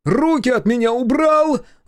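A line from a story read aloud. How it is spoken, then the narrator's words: Hysterical shout. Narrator (Russian): закричал, явно срываясь в истерику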